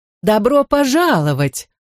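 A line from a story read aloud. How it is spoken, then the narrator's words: Joyful exclamation. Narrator (Russian): радостно воскликнула тетушка Бану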